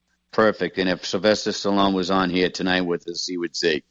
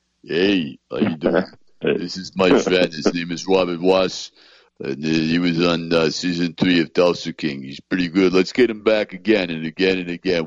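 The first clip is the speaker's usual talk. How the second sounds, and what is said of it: Imitates another person's voice. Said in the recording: “really good impersonation”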